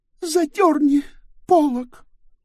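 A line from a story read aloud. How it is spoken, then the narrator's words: Sobbing. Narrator (Russian): всхлипнула она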